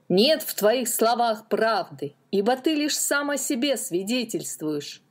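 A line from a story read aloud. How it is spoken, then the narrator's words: Crowd shouting. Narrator (Russian): кричали они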